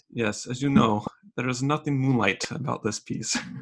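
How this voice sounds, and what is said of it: Put-on Hungarian accent. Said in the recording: “in his Hungarian accent”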